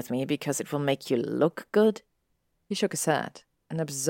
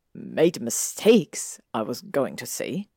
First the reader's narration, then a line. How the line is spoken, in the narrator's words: he muttered after a moment